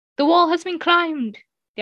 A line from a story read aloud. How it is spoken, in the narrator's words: the young man called out, his loud voice ringing